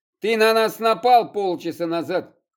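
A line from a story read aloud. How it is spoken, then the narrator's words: Man shouting. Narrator (Russian): крикнул мужчина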